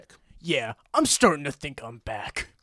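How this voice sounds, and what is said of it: Good John Wick impression. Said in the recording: “That's actually a pretty good impression. ... John Wick”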